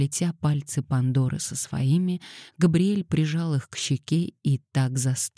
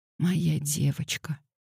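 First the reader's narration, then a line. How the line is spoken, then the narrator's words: Whisper. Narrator (Russian): прошептал Габриэль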